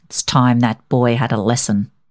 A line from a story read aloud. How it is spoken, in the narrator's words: muttered